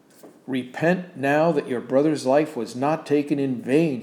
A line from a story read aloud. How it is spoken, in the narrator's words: he shouted as he banged his hand on the pulpit